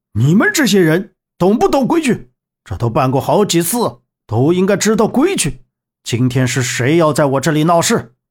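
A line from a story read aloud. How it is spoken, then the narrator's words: Angry shout. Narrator (Chinese): 蔡广勇……怒喝道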